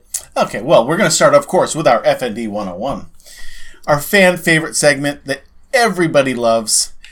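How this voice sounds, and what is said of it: Boston accent. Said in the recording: “you're talking, you know, in a Boston accent”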